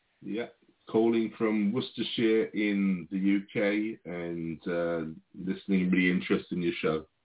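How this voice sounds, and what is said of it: British accent. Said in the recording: “I hear you have a British accent”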